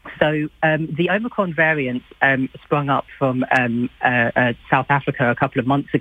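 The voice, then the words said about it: Slightly out of breath, sore-throated voice. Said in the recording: “I woke up this morning with a sore throat and a headache ... I'm very sorry if I sound a little bit out of breath”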